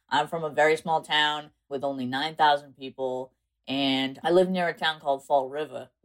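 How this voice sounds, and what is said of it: South Coast Massachusetts accent. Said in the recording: “people think that because how I speak, but I'm actually from South Coast, Massachusetts ... which is kind of where my accent comes from ... your accent”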